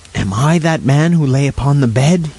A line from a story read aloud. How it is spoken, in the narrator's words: he cried